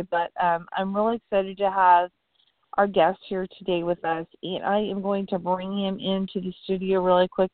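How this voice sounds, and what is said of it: Unwell-sounding voice. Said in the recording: “excuse my voice. I'm a little under the weather today”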